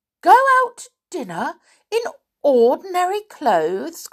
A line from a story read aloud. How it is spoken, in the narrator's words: cried Connie